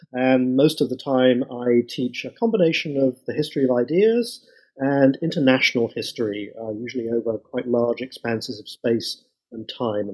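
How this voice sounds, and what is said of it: British English accent. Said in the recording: “I've done everything I can to keep my original accent... I'm not originally an American, but I come from Britain”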